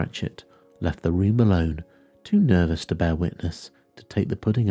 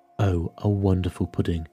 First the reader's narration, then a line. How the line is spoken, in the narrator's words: Bob Cratchit said, and calmly too